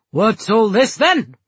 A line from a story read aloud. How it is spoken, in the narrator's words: The Viscount bellowing